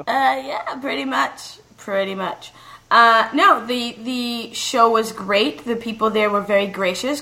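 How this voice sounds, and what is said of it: Slightly hoarse voice. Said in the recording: “I'm still a little hoarse.”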